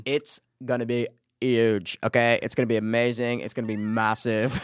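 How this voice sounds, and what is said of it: Donald Trump impression. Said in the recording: “He does Donald Trump... It's not bad... It's good... That's the gay Trump.”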